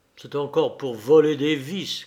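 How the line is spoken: Grumbling. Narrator (French): grommela-t-il

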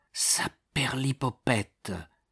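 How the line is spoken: Muttered. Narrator (French): murmura le percepteur

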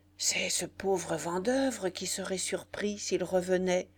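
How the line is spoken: Murmur. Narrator (French): murmura Foucarmont

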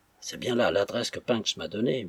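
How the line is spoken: Murmured. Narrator (French): murmura-t-il

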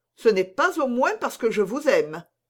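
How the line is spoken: Exclaiming. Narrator (French): s'écria Montalet

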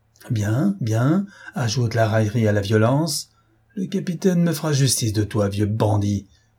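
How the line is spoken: Contained rage. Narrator (French): s'écria l'armateur avec une rage concentrée

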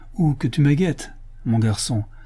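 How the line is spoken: Pleasant retort. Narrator (French): riposta le bandit d'un ton plaisant

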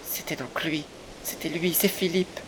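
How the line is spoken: Breathless, panting. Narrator (French): dit-elle aussitôt que sa respiration haletante lui permit de parler

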